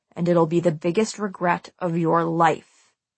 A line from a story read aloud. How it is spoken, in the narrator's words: he said in Scott's ear, his voice low and threatening